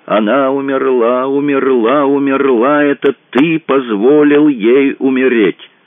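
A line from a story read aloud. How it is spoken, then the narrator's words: Devilish chorus shouting. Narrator (Russian): какой-то дьявольский хор кричал в его голове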